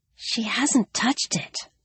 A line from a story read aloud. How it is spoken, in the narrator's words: she whispered